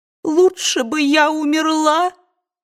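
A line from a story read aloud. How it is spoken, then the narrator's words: Abandoned sobbing. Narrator (Russian): самозабвенно всхлипывала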